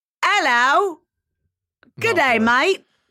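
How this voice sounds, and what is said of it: Put-on Australian accent. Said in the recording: “Is that a good Australian accent?”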